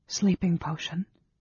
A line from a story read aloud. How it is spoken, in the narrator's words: she whispered